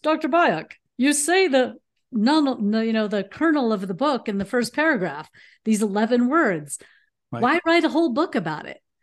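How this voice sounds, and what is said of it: Put-on interviewer voice. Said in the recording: “I should do my interviewer voice.”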